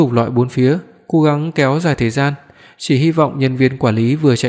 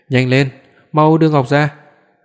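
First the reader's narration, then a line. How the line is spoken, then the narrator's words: Panting, breathless. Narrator (Vietnamese): Lý Quý thở hổn hển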